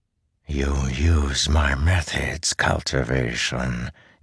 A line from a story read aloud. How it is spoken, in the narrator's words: he whispered